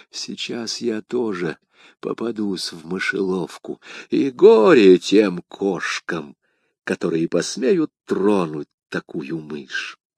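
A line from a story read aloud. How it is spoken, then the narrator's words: Whispering. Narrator (Russian): прошептав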